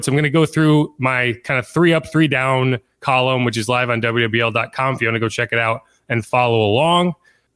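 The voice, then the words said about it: Slightly sick, rough-sounding voice. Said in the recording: “I've been sidelined with COVID all week. Still, you could probably hear it in my voice a little bit ... why I sound terrible”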